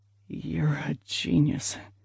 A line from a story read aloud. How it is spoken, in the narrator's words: he murmured